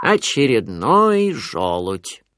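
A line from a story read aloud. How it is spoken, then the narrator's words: Grumbling. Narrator (Russian): проворчал кто-то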